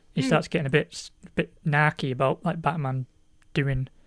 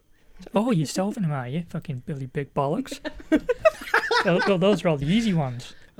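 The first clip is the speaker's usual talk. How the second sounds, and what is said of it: Impression of the Riddler. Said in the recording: “That was a great impression of the Riddler.”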